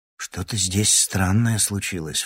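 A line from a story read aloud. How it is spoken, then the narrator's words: Low voice. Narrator (Russian): вполголоса сообщил Андрей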